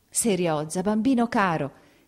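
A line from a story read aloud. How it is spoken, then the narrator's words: Choked exclamation. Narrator (Italian): ella esclamò, soffocando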